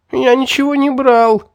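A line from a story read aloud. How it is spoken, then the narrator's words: Whimpering boy. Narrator (Russian): захныкал мальчишка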